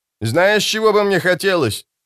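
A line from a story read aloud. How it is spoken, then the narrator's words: Shouting from afar. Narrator (Russian): прокричал Алекс из рубки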